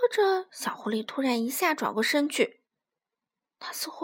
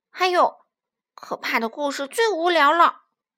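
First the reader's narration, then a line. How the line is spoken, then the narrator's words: Loud, young fox. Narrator (Chinese): 小狐狸大声说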